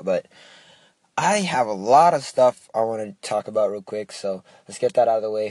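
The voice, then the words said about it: Slightly raspy voice. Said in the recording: “my voice is a little raspy too. I was like yelling my brains out.”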